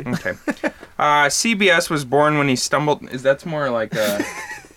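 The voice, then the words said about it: Put-on Minnesota-style accent. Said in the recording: “should I do this in a Canadian accent? ... I just slipped into like a Minnesota accent.”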